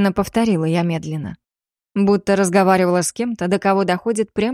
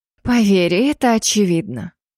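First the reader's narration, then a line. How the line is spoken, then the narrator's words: Sighed. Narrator (Russian): вздохнула я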